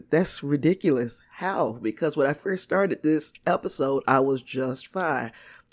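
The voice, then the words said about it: Raspy, strained, failing voice. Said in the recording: “I'm dying slowly in this episode. My throat is just, it's giving up on me. And I feel like I'm losing my voice... my raggedy, raspy voice”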